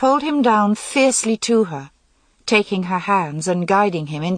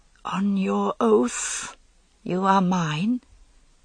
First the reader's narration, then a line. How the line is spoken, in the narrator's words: she held him away while he gasped and pleaded, and she whispered